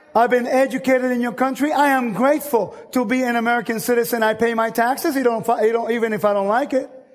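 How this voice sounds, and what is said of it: Noticeable non-native accent in English. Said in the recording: “I know I still have an accent.”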